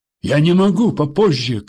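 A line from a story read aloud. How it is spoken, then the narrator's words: Shouted reply. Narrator (Russian): крикнул в ответ министр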